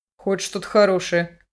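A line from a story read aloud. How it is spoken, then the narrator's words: Prince muttering. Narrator (Russian): пробормотал принц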